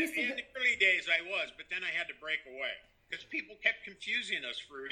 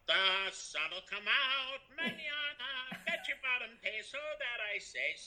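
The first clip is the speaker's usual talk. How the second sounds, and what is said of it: Sung Little Orphan Annie impression. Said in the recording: “Doing his impression of a Little Orphan Annie.”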